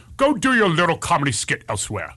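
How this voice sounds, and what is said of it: Regal Shakespearean imitated voice. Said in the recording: “this is a regal Shakespearean act”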